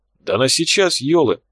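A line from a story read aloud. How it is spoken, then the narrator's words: Exclaiming. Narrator (Russian): воскликнул Тхар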